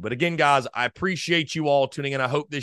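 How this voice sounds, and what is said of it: Strained, not fully recovered voice. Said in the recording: “my voice is finally starting to come back ... my voice wasn't too bad off on Sunday afternoon. It was much, much worse ... I'm not sure that it's exactly at 100% ... the voice is slowly but surely coming back”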